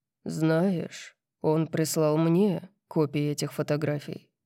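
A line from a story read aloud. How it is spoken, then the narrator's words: Calm. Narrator (Russian): спокойно сказал он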